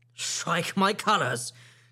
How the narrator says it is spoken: cried the captain

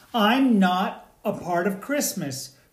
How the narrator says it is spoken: cried the latke

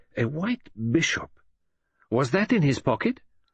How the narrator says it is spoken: he exclaimed

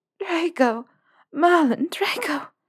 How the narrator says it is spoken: She whimpered into his collarbone

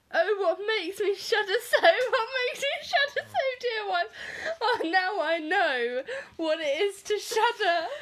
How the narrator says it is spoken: he woke up and cried

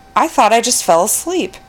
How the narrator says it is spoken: The other passenger in the back seat exclaimed

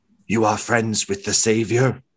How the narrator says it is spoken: The deep one's reptilian eyes go wide and kind of stops hissing and says

